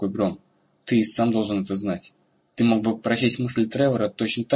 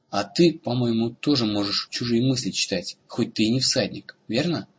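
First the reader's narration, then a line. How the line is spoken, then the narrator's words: Plain. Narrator (Russian): спросил Рагон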